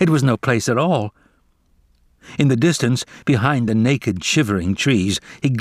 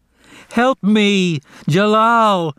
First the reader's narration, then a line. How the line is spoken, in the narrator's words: He cried